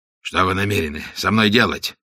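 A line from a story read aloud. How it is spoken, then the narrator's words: Hoarse question. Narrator (Russian): спросил, наконец, испанец хриплым голосом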